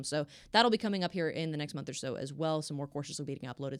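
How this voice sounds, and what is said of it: Very fast auctioneer-like talking. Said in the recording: “I know I'm talking like an auctioneer.”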